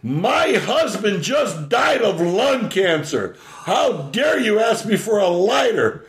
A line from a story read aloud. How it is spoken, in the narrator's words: This older woman screamed out